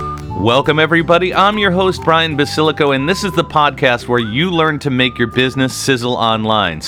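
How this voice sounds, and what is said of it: Usual voice. Nothing is said of it.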